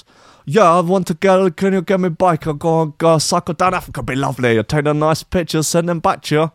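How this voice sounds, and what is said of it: Put-on German accent. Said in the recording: “It's a German accent, by the way.”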